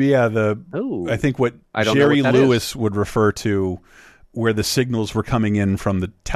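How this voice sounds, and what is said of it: Usual voice. Nothing is said of it.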